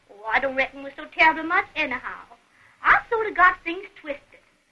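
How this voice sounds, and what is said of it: Southern American accent. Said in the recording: “a nice southern accent there”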